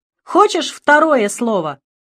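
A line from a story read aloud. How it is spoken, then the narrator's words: Shouted reply. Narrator (Russian): крикнула я в ответ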